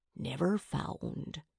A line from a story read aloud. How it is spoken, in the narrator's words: Teach whispered